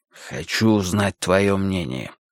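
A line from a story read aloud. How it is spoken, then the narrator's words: Strained hushed voice. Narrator (Russian): сказал он, наконец, сдавленным голосом, чтобы за 12 шагов не было слышно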